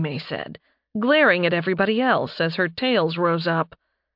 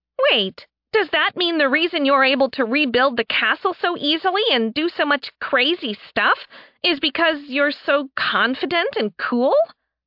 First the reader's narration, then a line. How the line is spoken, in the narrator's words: Sen blurted out